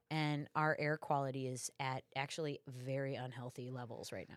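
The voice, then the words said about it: Raspy, stuffy congested voice. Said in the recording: “you can hear it in my voice, I'm a little raspy, I'm a little stuffy right now”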